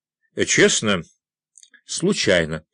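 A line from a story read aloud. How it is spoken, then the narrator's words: Plain. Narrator (Russian): ответил я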